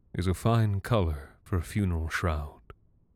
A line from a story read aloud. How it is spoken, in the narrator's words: he murmured sadly